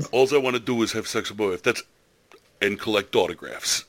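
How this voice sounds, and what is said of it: Put-on New York accent. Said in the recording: “He's from New York. That's why I did the accent ... he's got the full New York accent”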